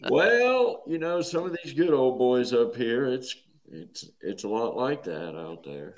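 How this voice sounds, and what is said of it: Usual voice. Nothing is said of it.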